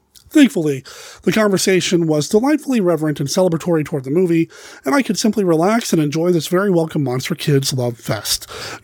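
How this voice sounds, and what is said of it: Congested voice, slightly swallowed words. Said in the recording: “my throat's a little iffy. So if I sound like I have a cold or I'm kind of swallowing my words”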